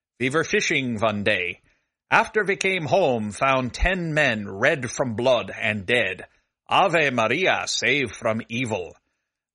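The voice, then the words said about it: Put-on Scandinavian accent. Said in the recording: “My apologies for the accent. I hope our Scandinavian listeners have not turned off the podcast in a snit. I probably should not do accents.”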